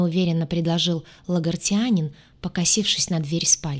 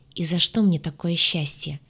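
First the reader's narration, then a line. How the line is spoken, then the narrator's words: Quiet laugh, man. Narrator (Russian): Тихо рассмеялся мужчина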